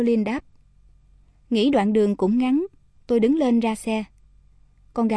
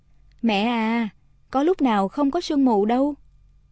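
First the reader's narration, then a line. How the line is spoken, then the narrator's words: Gentle smiling daughter. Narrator (Vietnamese): Con gái tôi mỉm cười, ôn tồn nói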